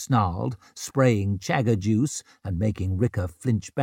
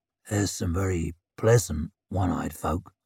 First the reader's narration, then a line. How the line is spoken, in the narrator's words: grunted Shivers